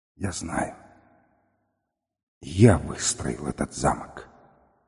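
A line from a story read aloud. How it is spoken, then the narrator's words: Barely audible mutter. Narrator (Russian): узник чуть слышно пробормотал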